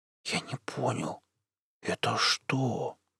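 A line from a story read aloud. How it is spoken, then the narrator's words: Whispered. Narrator (Russian): прошептал Жорик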